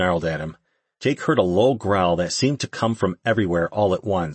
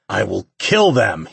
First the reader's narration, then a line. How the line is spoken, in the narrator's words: snarled